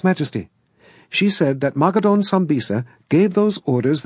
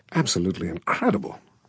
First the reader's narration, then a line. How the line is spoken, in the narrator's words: Valentine muttered